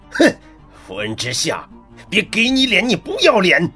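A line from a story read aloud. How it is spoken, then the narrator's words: Deep angry shout. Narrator (Chinese): 温博远 沉声怒喝道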